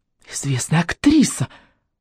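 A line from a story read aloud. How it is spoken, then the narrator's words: Grandiose exclamation. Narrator (Russian): с пафосом воскликнула Алочка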